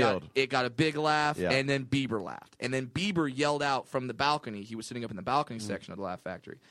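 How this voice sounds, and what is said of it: Usual voice. Nothing is said of it.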